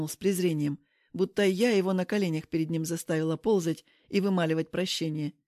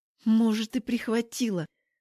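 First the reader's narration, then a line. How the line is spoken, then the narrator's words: Through gritted teeth. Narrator (Russian): цыжу сквозь зубы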